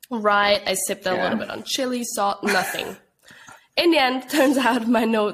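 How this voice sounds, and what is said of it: Congested, blocked-nose voice. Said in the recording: “you can hear it from my voice, like my nose is just so blocked”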